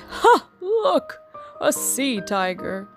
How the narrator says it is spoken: they all laughed

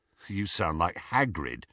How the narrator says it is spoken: said Ron

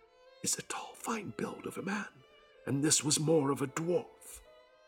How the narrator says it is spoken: began to whisper

